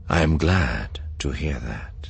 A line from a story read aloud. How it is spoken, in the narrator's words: Thrawn said gravely